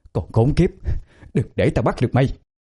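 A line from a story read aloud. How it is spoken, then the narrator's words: Muttered cursing. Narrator (Vietnamese): lầm bầm chửi thề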